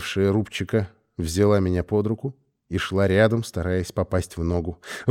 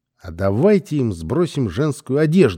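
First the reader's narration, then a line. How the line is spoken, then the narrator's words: Loud cheerful suggestion. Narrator (Russian): предложила громко и радостно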